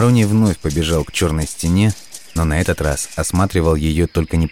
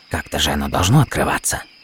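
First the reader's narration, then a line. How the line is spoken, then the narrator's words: Old dealer muttering. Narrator (Russian): бормотал себе под нос антиквар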